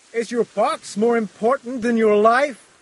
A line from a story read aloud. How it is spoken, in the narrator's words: I shouted